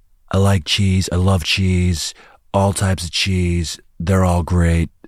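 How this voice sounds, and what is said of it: Imitates another person's voice. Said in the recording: “That was a very Donald Trump answer. ... Oh, I haven't done my Trump accent in a while.”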